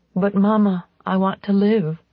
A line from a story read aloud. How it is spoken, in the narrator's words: the voice of 15-year-old Miriam cried gently